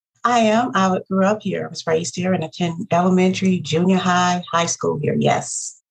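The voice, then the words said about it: Southern Georgia accent. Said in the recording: “I love your accent ... your accent is Georgian”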